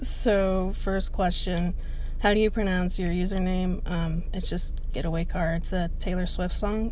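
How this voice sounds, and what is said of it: Slight Southern US accent. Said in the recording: “you're probably about to hear a little bit of my southern accent”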